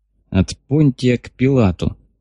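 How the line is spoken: Gloomy comment. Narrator (Russian): мрачно прокомментировал товарищ Мехлис

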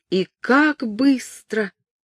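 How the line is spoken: Sobbing exclamation. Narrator (Russian): воскликнула принцесса, снова начиная рыдать

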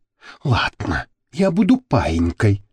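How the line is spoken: Woman's whisper. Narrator (Russian): Гарику прошептала модель

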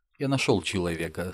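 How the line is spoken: Calm. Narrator (Russian): спокойно сказал Назгул

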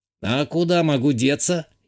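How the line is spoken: Snide snort. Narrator (Russian): ехидно хмыкнул тот

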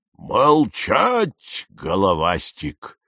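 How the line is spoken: King barking startlingly loud. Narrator (Russian): рявкнул король Нептун, да так, что я подпрыгнул от неожиданности

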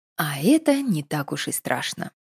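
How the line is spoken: Whispered. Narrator (Russian): шепнула Надежда невидимой кошке

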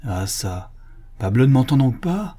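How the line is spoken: Anxious canon crying out. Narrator (French): s'écria le chanoine dont l'inquiétude augmentait

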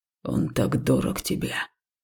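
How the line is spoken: Hoarse growl. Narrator (Russian): охрипшим голосом прорычал жнец

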